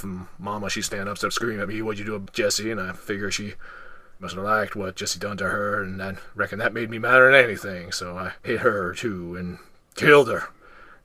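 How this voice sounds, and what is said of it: Sling Blade character impression. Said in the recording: “we have found your impression. I think I do a pretty decent sling blade, but you do a better one, and you had that speech down pretty cold”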